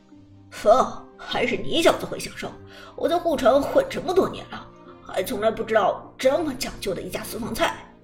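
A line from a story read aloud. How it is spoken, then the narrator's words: Laughing, friendly. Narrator (Chinese): 韩小军 笑着对风说道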